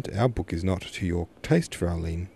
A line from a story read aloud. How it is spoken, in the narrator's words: Herr Grundlich softly questioned